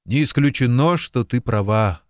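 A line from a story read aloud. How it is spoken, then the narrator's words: Sighing. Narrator (Russian): вздохнул он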